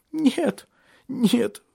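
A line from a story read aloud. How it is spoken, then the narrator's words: Sobbing. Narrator (Russian): всхлипывала Шарлотта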